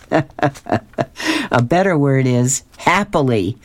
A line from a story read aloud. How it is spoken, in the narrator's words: starts laughing and he says